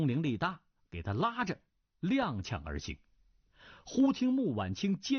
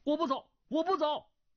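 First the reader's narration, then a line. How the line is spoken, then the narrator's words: Shouting. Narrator (Chinese): 段誉叫道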